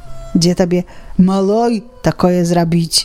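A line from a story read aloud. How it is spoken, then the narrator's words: Sigh. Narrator (Belarusian): Уздыхае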